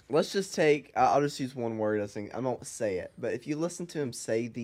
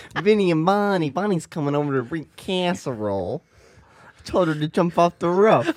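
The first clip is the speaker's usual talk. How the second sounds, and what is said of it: Put-on New York accent. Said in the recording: “another impression ... your New York accent”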